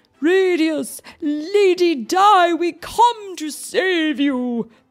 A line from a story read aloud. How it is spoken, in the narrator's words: they shouted